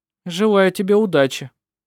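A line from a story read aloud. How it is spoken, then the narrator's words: Dry. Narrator (Russian): сухо сказал Петер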